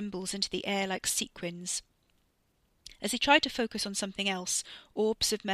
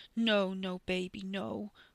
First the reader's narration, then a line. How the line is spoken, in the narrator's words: Wes whimpered